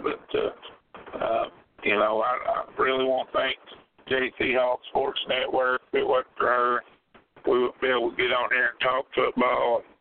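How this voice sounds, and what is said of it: Hoarse voice. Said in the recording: “I'm still a little under the weather... I'm a little bit hoarse.”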